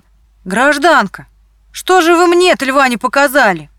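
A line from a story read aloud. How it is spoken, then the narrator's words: Conductor shouting. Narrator (Russian): высунулся кондуктор и закричал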